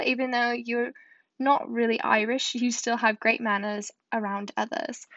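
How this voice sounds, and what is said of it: Poor put-on British accent. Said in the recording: “my British accent. That was really bad”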